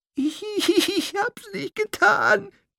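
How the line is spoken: Terrified squeak. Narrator (German): piepste sie und rollte entsetzt mit den Augen

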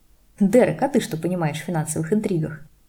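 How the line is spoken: Laughing. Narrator (Russian): Засмеялся Нот

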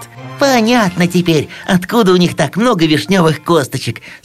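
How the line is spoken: Said, then merry laughter. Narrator (Russian): сказала Серушка, и они с сыроежиком весело засмеялись

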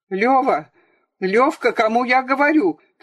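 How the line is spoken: Father's bewildered shout. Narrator (Russian): кричал ему вслед отец, но в его голосе было больше растерянности, чем угрозы

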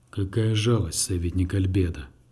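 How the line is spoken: Deep bass rumble. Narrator (Russian): густым басом пророкотал кардинал

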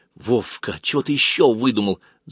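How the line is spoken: Hissing. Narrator (Russian): зашипела Галка

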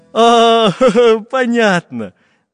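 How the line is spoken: Laughing pencil. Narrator (Russian): засмеялся карандаш

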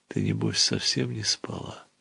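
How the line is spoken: Joyful whisper. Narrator (Russian): ответила радостным шепотом

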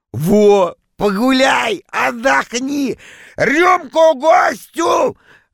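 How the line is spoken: Joyful loud shout. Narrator (Russian): радостно закричал он на весь зал

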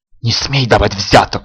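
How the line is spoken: Hissing. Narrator (Russian): шипела Искра

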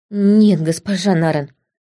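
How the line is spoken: Mumbling. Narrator (Russian): промямлил лейтенант

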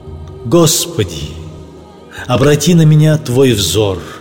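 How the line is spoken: Ecstatic exclamation. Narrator (Russian): один опьяненный Аллахом человек воскликнул

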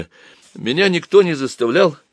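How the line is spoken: Timid babbling. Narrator (Russian): пролепетал Боря

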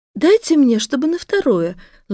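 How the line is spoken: Affectionate, gentle. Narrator (Russian): Ласково начала Тимченко

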